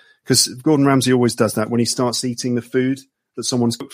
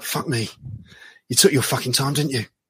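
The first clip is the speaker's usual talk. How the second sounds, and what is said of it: Gordon Ramsay impression, swearing chef. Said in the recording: “That's my Gordon Ramsay impression ... The swearing English chef”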